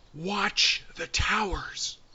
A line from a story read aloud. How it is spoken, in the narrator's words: Suddenly, Will ... whispered